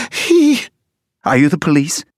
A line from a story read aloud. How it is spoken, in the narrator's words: She spit it out, choked, and cried